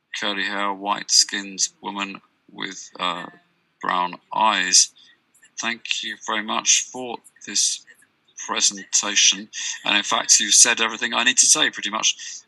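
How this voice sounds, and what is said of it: Slight Brazilian accent. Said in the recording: “I'm a Brazilian woman. So I have a slight Brazilian accent”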